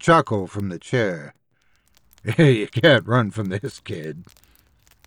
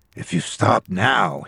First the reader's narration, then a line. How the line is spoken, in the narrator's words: he murmured, voice almost gentle